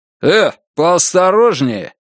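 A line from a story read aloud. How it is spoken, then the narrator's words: Barking. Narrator (Russian): рявкнул он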